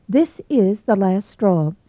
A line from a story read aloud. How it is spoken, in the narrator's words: she said